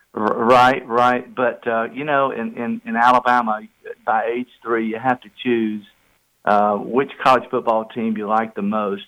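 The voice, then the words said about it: Noticeable regional accent. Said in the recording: “love the accent”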